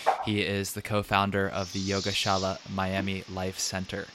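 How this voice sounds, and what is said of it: Smooth radio-style voice. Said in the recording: “you have a really nice radio voice”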